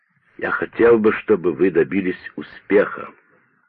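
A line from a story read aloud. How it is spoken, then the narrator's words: Plain. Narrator (Russian): сказал Томпсон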